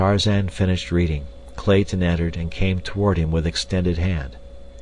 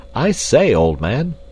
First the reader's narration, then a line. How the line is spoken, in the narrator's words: cried Clayton